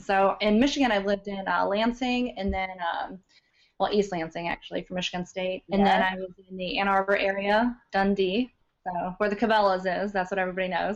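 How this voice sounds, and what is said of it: Slight non-Michigan regional accent. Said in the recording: “accent came from, because that's not a Michigan accent. But it's just a slight one, though.”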